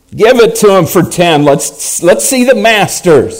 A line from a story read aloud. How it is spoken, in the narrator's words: someone shouted